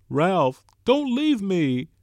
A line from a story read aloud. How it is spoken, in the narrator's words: Piggy wailed